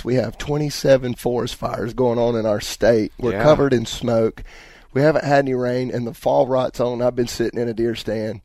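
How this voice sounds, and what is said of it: Voice sounds a little funny. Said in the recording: “you can probably hear it in my voice ... And the smoke, it got me ... My voice might sound a little funny”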